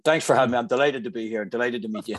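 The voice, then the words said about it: Irish accent. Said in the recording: “that's not a New York accent I hear ... what part of Ireland”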